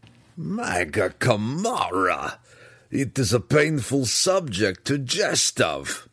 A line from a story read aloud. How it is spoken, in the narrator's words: Belwar replied, though he chuckled in spite of himself, even as he spoke the words